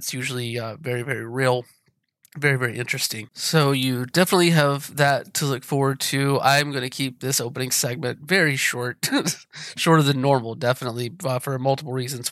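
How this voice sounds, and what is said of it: Sick, terrible-sounding voice. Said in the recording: “if you can't tell from my voice, I got COVID ... my voice doesn't sound this terrible”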